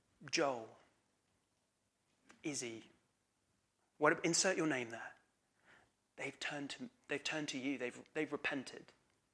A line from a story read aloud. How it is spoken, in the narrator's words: whispers in his ear, they go